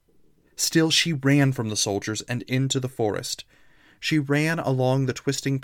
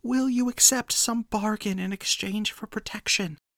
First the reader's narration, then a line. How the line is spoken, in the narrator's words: Enora whispered the words